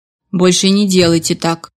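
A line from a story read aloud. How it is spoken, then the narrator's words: Grumbled. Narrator (Russian): буркнув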